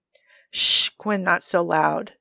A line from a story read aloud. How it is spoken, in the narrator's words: Joe hisses